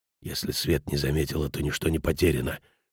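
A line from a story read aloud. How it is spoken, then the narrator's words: Nervous whisper. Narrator (Russian): шепнул, так нервничал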